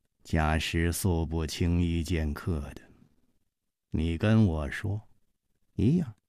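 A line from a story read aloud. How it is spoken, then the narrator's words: Slow. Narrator (Chinese): 冷秋魂缓缓地说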